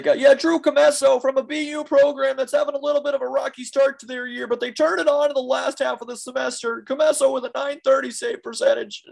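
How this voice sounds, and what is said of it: Excited sports commentator impression. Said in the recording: “Ray Ferraro, my impression. Well, everything for him's really excited. He's really into it.”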